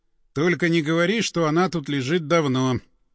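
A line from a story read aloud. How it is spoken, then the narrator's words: Flat colorless voice. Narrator (Russian): каким-то бесцветным голосом сказал напарник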